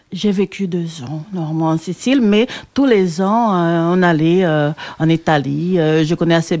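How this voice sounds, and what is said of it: Mixed Brazilian-Italian accent in French. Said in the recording (French): “ton accent brésilien ... il me semble que c'est un accent mélangé parce que tu as vécu en Italie longtemps”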